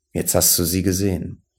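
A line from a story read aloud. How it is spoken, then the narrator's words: Plain. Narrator (German): sagte Konrad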